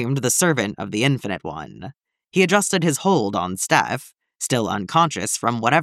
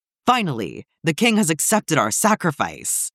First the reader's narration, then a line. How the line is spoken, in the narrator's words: the servant of the Infinite One exclaimed